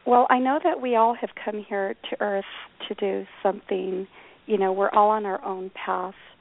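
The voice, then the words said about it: Voice strained by a cold. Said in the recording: “I'm kind of nursing my voice here... I have a cold”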